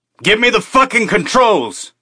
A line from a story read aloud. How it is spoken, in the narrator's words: he shouted